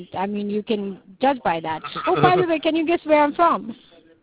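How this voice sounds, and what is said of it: South African accent. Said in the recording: “that's the reason why I have an accent ... your accent, I wanted to say a little bit European ... that is South Africa”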